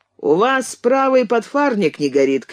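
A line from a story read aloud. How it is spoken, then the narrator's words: Shouting. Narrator (Russian): крикнул Кэнси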